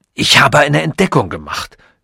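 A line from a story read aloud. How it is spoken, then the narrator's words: Sudden hoarse blurt. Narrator (German): stieß er plötzlich mit heiserer Stimme hervor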